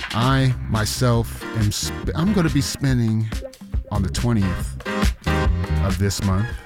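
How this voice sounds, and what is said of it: Usual voice. Nothing is said of it.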